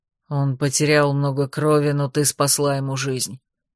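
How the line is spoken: Hoarse. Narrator (Russian): хрипло сказал Анах

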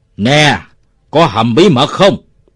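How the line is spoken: Shouted in face. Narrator (Vietnamese): Nó thét vào mặt ông Bảy

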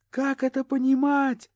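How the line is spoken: Shouting. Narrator (Russian): кричала

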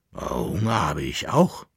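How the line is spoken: Growling dog. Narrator (German): knurrte der Bauernköter

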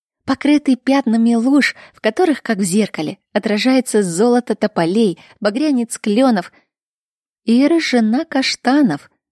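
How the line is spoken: Laughing. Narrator (Russian): рассмеявшись, закончила Кира

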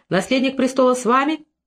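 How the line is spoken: Shouted. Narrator (Russian): один из них крикнул

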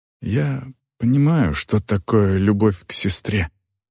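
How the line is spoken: Whisper. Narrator (Russian): прошептала Вол

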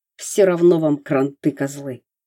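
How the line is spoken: Strained hoarse wheeze. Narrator (Russian): прохрипел бандит, отчаянно корчась под каблуком Ставрогина

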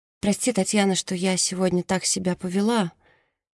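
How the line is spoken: Timid. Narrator (Russian): робко говорит Мерседес

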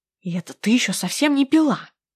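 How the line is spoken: Hissed. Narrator (Russian): Прошипела

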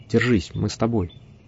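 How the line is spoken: Whispered. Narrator (Russian): Гэри прошептал

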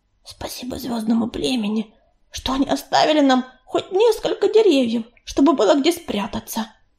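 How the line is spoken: Whispered. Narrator (Russian): прошептала она

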